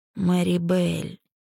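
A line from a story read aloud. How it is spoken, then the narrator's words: Strained drawl. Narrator (Russian): с надрывом протянул Кристиан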